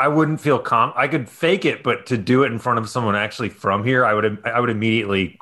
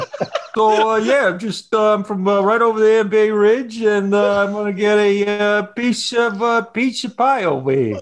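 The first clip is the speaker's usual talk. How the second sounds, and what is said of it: Poor put-on Brooklyn New York accent. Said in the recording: “You could probably fake one pretty good ... Where am I from? ... You're from Bay Ridge ... I'm gonna do an impression ... That was bad ... It was like sort of Family Guy, Peter Griffin with a.”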